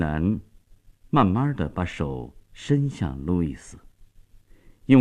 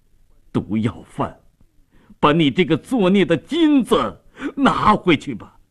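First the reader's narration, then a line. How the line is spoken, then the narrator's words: Crying out, grieving. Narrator (Chinese): 米勒哭喊着说道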